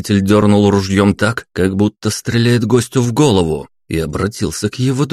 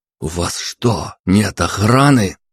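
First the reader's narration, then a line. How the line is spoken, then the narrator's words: Hissing. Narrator (Russian): Прошипел я графу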